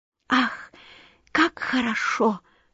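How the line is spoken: Delighted whisper. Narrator (Russian): шептала она в восторге

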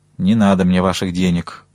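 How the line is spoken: Gloomy old man. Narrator (Russian): мрачно сказал старик

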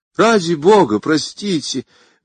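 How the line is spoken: Pleading young man. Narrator (Russian): взмолился молодой человек

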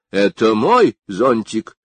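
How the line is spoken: Stern. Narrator (Russian): сказал он строго

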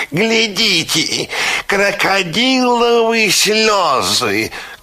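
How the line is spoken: Shouted by a parrot. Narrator (Russian): крикнул пестрый попугай

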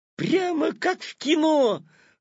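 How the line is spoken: Delighted exclamation. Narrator (Russian): восторженно воскликнул Петя

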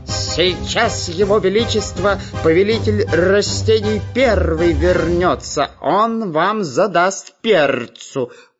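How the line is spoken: Parrot shouting. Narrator (Russian): кричал попугай

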